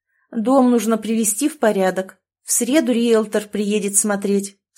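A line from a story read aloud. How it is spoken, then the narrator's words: Plain. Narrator (Russian): сказала мать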